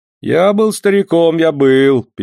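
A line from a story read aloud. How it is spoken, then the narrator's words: Sad speech. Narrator (Russian): печально сказал Кагула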